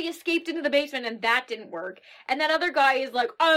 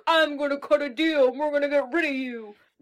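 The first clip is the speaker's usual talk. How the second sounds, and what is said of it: Poor imitation of another person's voice. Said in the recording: “That was the worst impression ever.”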